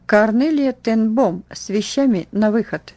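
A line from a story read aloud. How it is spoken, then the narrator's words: Stern metallic female voice. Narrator (Russian): грозная надзирательница металлическим голосом произнесла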